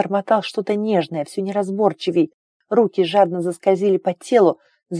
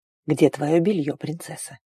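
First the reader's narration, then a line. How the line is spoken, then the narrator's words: Whisper in ear. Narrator (Russian): прошептал Арн на ухо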